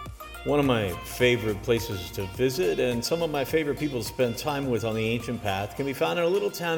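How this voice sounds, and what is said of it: Usual voice. Nothing is said of it.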